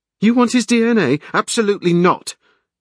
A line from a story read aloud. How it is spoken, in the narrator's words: Kate said loudly